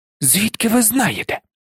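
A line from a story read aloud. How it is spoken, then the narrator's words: Hissing. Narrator (Ukrainian): зашипіла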